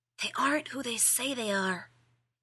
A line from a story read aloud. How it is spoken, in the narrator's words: he hissed